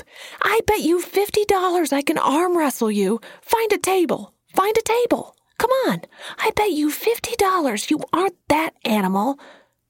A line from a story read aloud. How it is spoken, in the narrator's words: Shane yelled